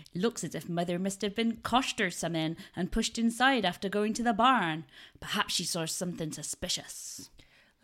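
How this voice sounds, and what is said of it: Put-on West Country accent. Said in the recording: “I need to get my West Country accent out”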